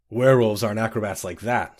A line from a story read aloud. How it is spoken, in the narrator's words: said Malin